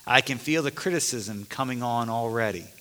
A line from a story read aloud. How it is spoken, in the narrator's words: Lucy calmly answers